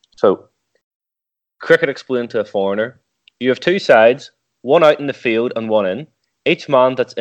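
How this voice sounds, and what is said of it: Speaker's own regional accent. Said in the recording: “the accent might not do this justice”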